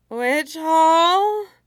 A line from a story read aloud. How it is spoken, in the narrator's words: They slurred exaggeratedly, and as one